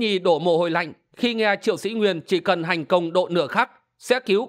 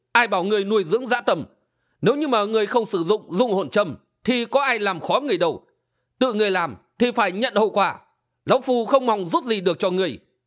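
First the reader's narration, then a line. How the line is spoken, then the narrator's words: Sharp scolding. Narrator (Vietnamese): Hình Xuyên nạt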